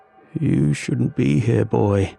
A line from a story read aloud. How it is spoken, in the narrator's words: murmured